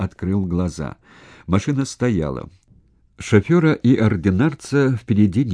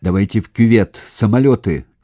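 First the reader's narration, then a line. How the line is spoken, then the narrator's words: Angry but calm shout. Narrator (Russian): сердито, но, впрочем, без особого волнения кричал Данилов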